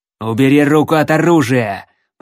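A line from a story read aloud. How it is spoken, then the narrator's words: Growl. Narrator (Russian): прорычал Хэнк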